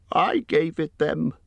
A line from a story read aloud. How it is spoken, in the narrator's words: squeaked Bilbo, in a dreadful fright